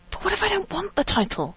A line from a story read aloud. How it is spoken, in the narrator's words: Rodney whispered desperately